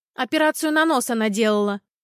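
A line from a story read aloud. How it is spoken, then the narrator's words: Loud reply. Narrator (Russian): громко ответила Антонина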